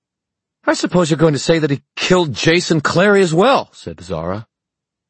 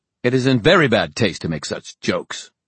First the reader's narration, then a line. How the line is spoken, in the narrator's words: Gladstone snapped